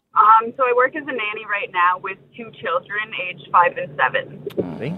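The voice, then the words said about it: North American Canadian accent. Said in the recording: “you've got an accent there. It sounds like you are from America initially, or originally ... I'm Canadian.”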